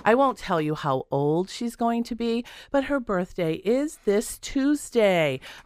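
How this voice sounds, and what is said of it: Scratchy, hoarse voice. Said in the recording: “My voice is pretty scratchy this morning.”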